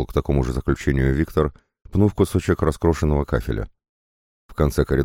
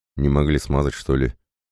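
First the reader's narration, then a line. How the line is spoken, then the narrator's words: Snorting. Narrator (Russian): Друг хмыкнул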